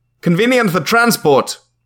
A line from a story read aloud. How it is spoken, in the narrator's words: the agent shouted